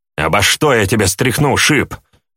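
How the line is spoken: Snapped. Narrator (Russian): огрызнулся крикун

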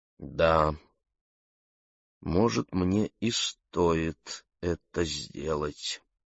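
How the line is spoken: Slow speech. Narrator (Russian): медленно произнесла Фиона

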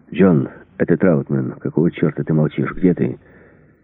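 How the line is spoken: Hoarse voice over speaker. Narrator (Russian): хриплый голос, голос Рэмбо

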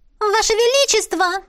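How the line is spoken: Sudden shrill female voice. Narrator (Russian): Визгливый женский голос прозвучал столь внезапно

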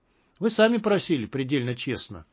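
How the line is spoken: Dry reply. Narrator (Russian): сухо ответил Кудыкин

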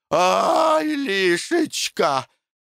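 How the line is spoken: Moaning. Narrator (Russian): стонала Ганна

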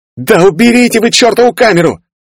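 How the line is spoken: Female yelling. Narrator (Russian): заорала перехватившая руль девушка

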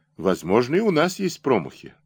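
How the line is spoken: Calm. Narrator (Russian): спокойно сказал Серпилин

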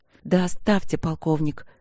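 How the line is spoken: Hissing. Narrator (Russian): она зашипела

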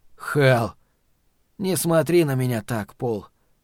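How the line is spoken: Sad, smiling. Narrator (Russian): грустно улыбнулся Норт

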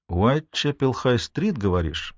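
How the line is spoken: Thoughtful. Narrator (Russian): произнесла задумчиво

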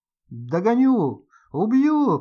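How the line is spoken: Shouting. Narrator (Russian): кричал он

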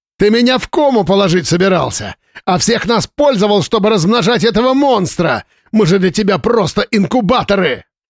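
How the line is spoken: Yelling. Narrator (Russian): Слава орал

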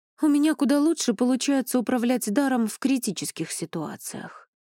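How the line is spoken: Sighing. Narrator (Russian): вздохнула я

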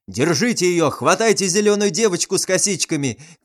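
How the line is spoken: Policeman shouting after. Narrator (Russian): кричал вслед убегающей Кикиморе милиционер

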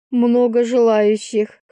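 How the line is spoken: Snort. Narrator (Russian): хмыкнула я

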